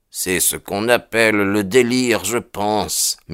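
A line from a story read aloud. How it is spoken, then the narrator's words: Murmured. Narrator (French): murmura-t-il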